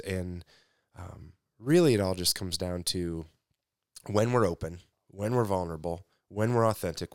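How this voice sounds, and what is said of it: Tired, exhausted-sounding voice. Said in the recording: “if you can maybe hear it in my voice, I'm exhausted today”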